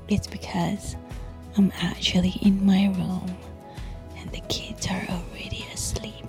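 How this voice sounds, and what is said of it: Whispering. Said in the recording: “I'm whispering ... I can't really, like, you know, talk loudly.”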